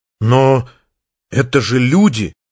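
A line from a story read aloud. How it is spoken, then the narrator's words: Strained. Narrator (Russian): выдавил Артур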